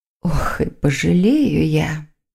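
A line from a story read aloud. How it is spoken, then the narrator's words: Muttered, witch. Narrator (Russian): пробормотала ведьма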